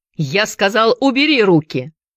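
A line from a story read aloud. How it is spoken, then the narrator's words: Repeated shout. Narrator (Russian): вновь закричал Вампас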